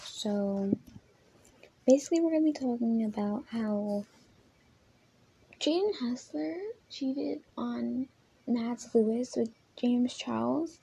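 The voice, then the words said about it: Unusually deep voice. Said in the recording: “sorry for the deep voice”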